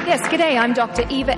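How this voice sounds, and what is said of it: Australian accent. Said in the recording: “she gets to use her Australian accent.”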